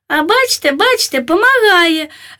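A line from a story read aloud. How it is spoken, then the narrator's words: Joyful shriek. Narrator (Ukrainian): радісно верещав карлик, бо від страху мене попустили спазми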